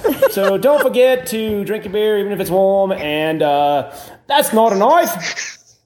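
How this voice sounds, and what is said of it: Put-on Australian accent, not very good. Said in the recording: “we have Australian accents... We don't know how to do them very well.”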